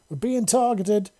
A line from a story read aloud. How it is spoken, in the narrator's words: Ramal yelled into his comms